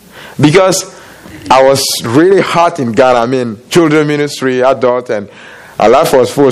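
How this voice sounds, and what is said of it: Foreign, non-American accent. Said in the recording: “he can tell by my accent that I'm not from here”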